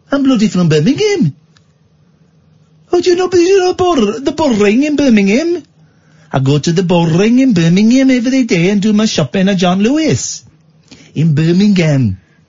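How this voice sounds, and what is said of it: Put-on Birmingham accent. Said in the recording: “It's not one of my best accents, but it's pretty good.”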